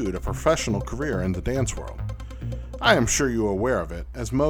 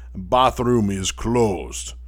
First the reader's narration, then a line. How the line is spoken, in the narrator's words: in a thick Russian accent